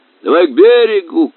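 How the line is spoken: Shouting. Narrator (Russian): кричал капитан

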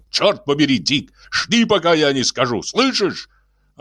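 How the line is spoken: Barked. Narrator (Russian): рявкнул Риос

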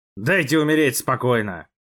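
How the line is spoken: Growl. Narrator (Russian): прорычал

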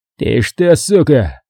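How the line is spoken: Hoarse wheeze. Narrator (Russian): сипел тот

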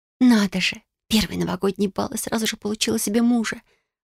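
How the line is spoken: Sighing girl. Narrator (Russian): вздохнула рыжая девушка

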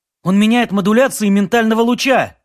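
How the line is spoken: Agitated officer reporting. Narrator (Russian): взволнованно доложил первый помощник

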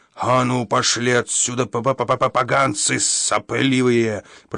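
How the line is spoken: Growled. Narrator (Russian): прорычал он

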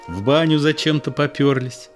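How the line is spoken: Laughing. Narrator (Russian): Люба засмеялась

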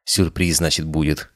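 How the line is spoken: Young woman snorting. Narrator (Russian): хмыкнула девушка

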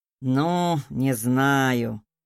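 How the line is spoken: Drawled. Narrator (Russian): протянул он

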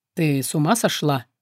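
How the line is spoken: Low menacing growl. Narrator (Russian): угрожающе низко прорычал демон

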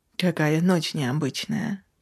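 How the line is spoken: Drawn-out. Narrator (Russian): Протянул я

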